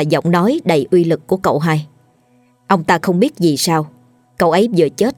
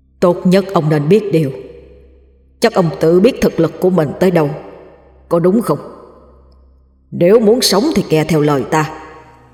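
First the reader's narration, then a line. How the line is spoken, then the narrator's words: Angry growling. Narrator (Vietnamese): bóng đen kia gầm gừ, tức giận lên tiếng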